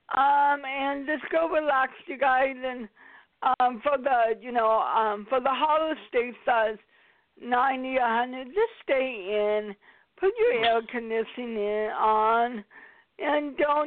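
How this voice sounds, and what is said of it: Strained, failing voice. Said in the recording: “I'm going to lose my voice. Can you tell? ... I can tell.”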